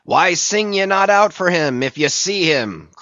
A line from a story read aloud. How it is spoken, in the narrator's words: cried Ahab